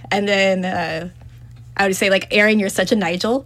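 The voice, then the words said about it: Slightly British-sounding put-on accent. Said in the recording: “You're going a little bit British on there. ... you're going a bit British.”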